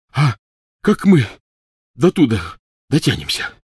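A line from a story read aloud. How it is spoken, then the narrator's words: Breathed out. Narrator (Russian): выдохнул Рон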